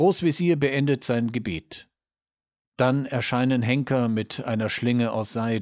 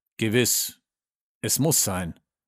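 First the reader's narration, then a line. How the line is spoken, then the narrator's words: Plain answer. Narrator (German): antwortet der Berater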